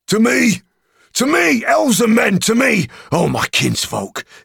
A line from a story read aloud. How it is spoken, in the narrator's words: he cried, and his voice shook like a horn in the valley